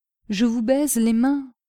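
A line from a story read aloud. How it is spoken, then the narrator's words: Plain. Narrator (French): répondit M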